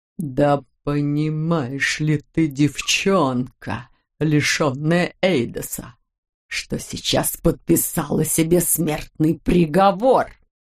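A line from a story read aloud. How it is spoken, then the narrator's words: Hiss. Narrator (Russian): прошипел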